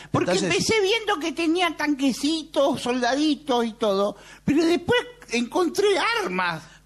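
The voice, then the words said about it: Child character with old woman's voice. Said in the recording (Spanish): “Es un niño con voz de vieja”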